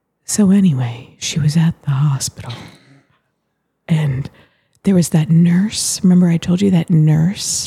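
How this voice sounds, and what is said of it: Calm soothing Zen voice. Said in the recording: “I'm talking in my most Zen voice.”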